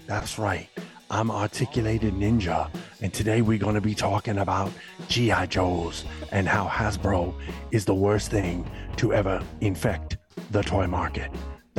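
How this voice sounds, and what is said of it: Half-whispered imitation, New York-like accent. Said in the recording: “he always sounds like he's half whispering, but he's got some kind of I feel like it's a New York accent ... he always talks like this ... That's a Cajun accent you're doing, you know.”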